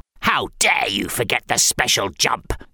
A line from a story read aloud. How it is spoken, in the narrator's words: snarled the Scaries